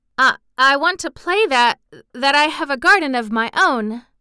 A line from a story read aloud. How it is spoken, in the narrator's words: she stammered